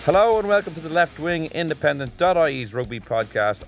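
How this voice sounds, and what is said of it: Energetic radio presenter voice. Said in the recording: “I put on my radio voice. ... A lot of energy there.”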